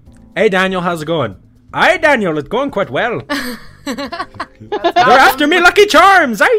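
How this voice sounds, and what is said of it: Put-on Irish accent. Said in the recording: “Let's try Irish. I'm gonna test out these accents. Let's try Irish. Go.”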